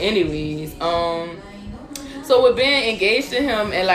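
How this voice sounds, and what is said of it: Usual voice. Nothing is said of it.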